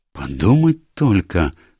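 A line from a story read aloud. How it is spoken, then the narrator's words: Female exclamation. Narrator (Russian): воскликнула мисс Булстроуд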